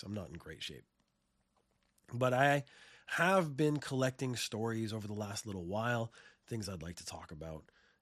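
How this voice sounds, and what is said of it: Sick-sounding voice. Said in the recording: “I got real sick ... You can probably hear it in my voice.”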